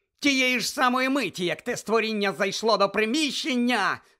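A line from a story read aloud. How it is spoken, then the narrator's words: Trembling shout. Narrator (Ukrainian): закричала вона тремтячи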